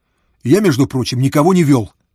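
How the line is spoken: Snapping. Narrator (Russian): огрызнулся Фома

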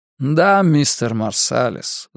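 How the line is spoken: Sighing. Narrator (Russian): вздохнул Ортис

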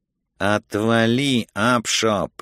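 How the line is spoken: Hiss. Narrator (Russian): прошипел адвокат

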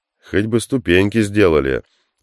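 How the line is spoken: Displeased grumbling from behind. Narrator (Russian): раздалось у него за спиной недовольное ворчание Хука

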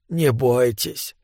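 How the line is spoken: Whisper. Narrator (Russian): прошептал он

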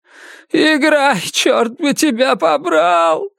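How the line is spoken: Sobbing shout. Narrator (Russian): всхлипывая, крикнул он

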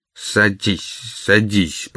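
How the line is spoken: Muttering. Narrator (Russian): пробормотал он

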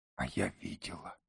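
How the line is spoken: Whispered. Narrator (Russian): прошептала Иртан

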